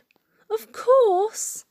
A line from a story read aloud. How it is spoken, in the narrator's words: cried Roy